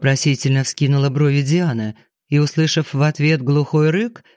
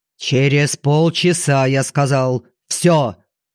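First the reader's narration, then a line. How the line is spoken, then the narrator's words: Barking. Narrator (Russian): рявкнул Фридман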